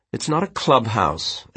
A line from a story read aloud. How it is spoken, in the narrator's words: Elliot said sharply